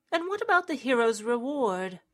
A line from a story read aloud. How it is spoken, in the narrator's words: Thorn sighed